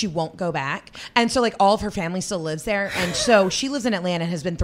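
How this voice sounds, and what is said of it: Usual voice. Nothing is said of it.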